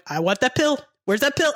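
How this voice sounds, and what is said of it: Bad impression of an actor. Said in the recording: “terrible Robert De Niro impression ... the bad Robert De Niro voice”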